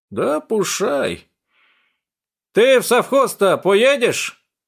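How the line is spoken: Loud shout like deaf man. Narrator (Russian): громко, как глухой, крикнул он Тунгуске

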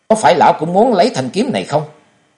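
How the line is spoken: Harsh question. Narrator (Vietnamese): rồi chàng gay gắt hỏi lão hành khất

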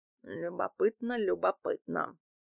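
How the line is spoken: Mutter. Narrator (Russian): пробормотал Дмитрий Иванович

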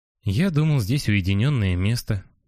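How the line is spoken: Glum. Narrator (Russian): говорит курильщик уныло

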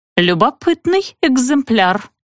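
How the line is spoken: Offended, burred speech. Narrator (Russian): картавила грезетка обиженно

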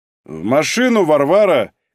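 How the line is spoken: Shouting. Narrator (Russian): крикнул Малинин

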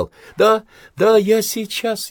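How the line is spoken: Laughing through tears. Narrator (Russian): Смеясь, обливаясь слезами, Раиса

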